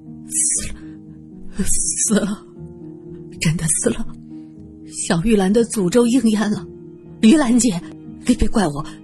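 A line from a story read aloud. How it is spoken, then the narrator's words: Dazed murmuring. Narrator (Chinese): 楚霸王整个人都呆住了，嘴里喃喃自语着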